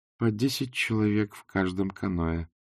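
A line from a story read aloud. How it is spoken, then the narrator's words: Grim. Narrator (Russian): мрачно сообщила Канина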